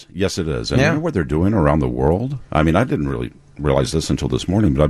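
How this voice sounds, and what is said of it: Rich radio announcer voice. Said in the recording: “you have such a great radio voice”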